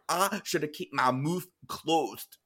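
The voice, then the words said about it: Imitated thick Geordie accent. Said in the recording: “she has a very thick accent. I'm going to try and do it the best ... Geordie Shore”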